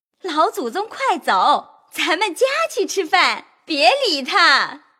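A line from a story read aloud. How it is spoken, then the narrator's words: Laughing. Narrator (Chinese): 凤姐儿笑道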